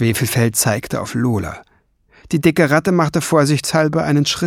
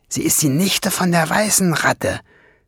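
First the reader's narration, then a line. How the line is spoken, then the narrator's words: Hissing. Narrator (German): zischte Schwefelfell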